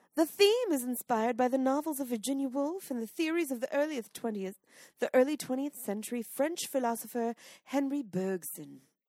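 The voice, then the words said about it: Pretentious imitation of another's voice. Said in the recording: “please do it as pretentiously as possible ... in my Julie Andrews voice ... this is Mother Julie”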